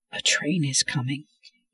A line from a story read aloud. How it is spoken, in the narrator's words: Wolf whispered